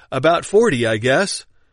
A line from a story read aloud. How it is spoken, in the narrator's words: One of the prisoners, who felt disposed to quicken our chief captain's speed, put his face to the grating hole and cried out